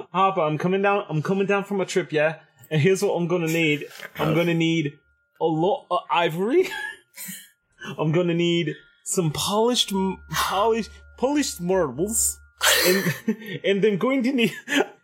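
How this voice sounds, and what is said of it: Put-on accent. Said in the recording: “I do this when I cannot sustain my other accent.”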